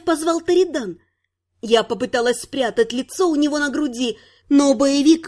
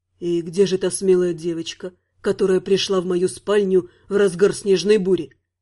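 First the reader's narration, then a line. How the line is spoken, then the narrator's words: Hoarse question. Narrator (Russian): хрипло спросил Терри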